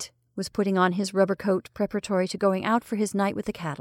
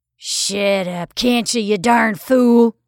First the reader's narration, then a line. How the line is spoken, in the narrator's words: roared Gillespie